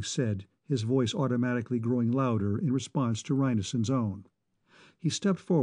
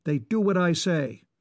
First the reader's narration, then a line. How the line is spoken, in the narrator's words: Manning snapped